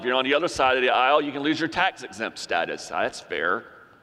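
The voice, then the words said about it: Sarcastic delivery. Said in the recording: “that was sarcastic,”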